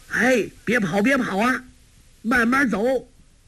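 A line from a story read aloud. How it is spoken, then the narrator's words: Calling out. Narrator (Chinese): 柯镇恶叫道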